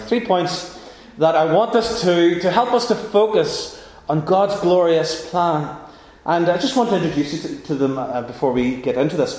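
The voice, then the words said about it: Northern Irish accent. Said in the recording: “with the accent, it sounds like "ours, hours," ... over in Northern Ireland”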